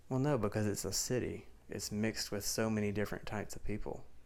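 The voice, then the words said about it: Strong Southern American accent. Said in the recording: “such a strong southern accent”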